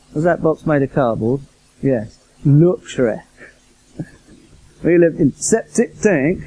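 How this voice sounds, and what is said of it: Poor imitation of Yorkshire accent. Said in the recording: “that sketch is called The Four Yorkshiremen ... I'm not very good at that accent, as you just noticed.”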